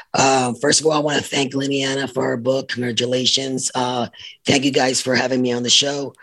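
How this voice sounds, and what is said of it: Raspy voice. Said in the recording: “Excuse my voice, by the way. I have a raspy voice right now this in the mornings.”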